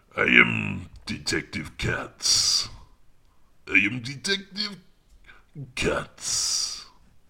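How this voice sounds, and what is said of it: Authoritative French accent. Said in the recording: “sound pretty French. So I'm just going to go with the French accent for that one ... he's very authoritative. So he doesn't have a funny French accent like Clouseau”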